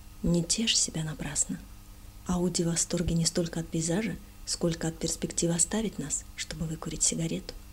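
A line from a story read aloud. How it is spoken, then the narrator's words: Whisper. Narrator (Russian): Шри Юктешвар прошептал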